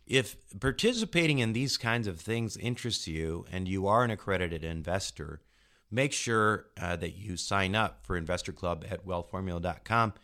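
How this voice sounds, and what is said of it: Congested voice from a cold. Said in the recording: “I have a cold,”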